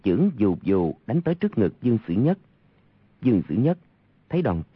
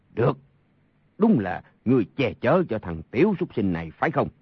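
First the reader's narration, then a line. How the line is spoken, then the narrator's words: Angry. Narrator (Vietnamese): Sa Thông Thiên tức giận nói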